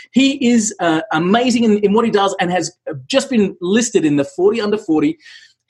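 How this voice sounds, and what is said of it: Australian accent. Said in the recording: “I wish I had a cool accent like yours ... I hate the Australian accent”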